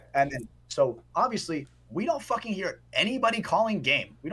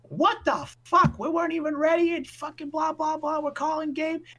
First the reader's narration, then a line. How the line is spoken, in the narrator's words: someone yelling at us, screaming at us